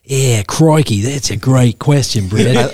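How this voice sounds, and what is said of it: Australian accent impression. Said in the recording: “him being Australian ... I love your accents”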